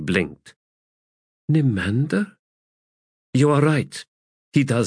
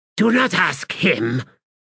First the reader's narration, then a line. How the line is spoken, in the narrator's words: Fayad snapped